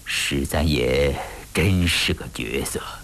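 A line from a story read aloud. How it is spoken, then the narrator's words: Low, hoarse. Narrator (Chinese): 吴思道低沉沙哑地说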